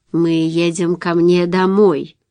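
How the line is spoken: Plain, old man. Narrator (Russian): ответил старик

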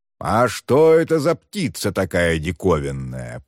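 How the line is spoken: Deep bass voice. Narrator (Russian): пробасил он

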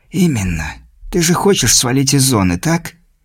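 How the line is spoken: Said in a whisper. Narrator (Russian): шепотом промолвил чужак

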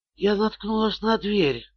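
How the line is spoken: Whispering woman. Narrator (Russian): прошептала Шерил

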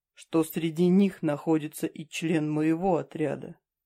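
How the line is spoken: Quiet. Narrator (Russian): тихо произнес он

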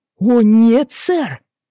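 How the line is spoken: Indignant protest. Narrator (Russian): возмущенно запротестовал Жермен

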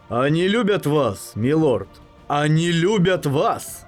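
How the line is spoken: Enthusiastic shout. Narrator (Russian): с воодушевлением прокричал

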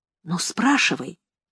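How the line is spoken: Whisper. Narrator (Russian): сказала я шепотом

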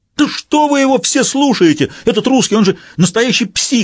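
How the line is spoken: Yell. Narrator (Russian): завопил Рюпас

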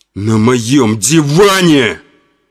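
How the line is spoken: Shouted. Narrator (Russian): закричал Константин

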